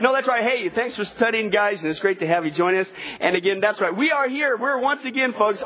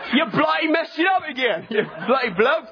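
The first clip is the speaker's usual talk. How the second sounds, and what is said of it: Put-on British accent. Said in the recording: “our best bloody British impersonation ... you gotta be British”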